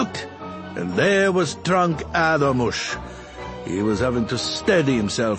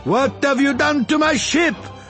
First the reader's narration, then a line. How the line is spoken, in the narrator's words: someone screamed